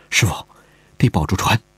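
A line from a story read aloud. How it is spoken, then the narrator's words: Soft voice. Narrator (Chinese): 他故意放慢了一步，轻声说道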